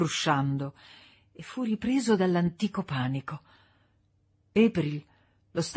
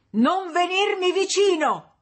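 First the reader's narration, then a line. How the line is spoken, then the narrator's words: Shouting. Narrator (Italian): gridò April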